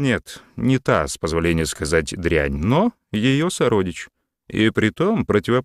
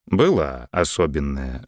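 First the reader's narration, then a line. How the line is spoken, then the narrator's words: Even-voiced reply. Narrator (Russian): ровным голосом ответил граф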